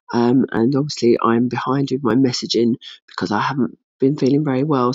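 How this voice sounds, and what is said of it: Hoarse, unwell voice with coughing. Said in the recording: “As you can hear, my voice is not good and I have constant coughing”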